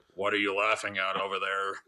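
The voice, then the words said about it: Imitates another person's voice. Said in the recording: “that's pretty good impersonation.”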